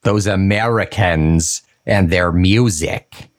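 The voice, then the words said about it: Put-on American accent. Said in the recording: “That's my American accent.”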